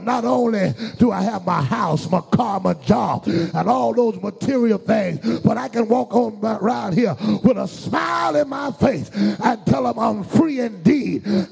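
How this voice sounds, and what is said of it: Shouting preacher. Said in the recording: “Why am I shouting around here?”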